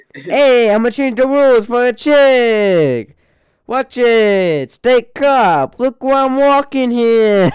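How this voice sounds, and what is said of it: Put-on New York accent. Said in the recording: “He has this accent... The classic New York accent. I think it's Italian.”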